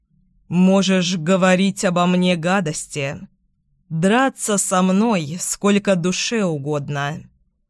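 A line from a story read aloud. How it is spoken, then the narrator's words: Low, menacing. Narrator (Russian): произносит он низким угрожающим тоном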